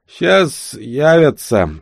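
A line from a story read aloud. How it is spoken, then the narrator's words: Sober voice. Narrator (Russian): сказал Вилли уже совершенно трезвым голосом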